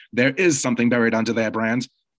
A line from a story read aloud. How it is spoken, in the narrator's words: he is supposed to yell back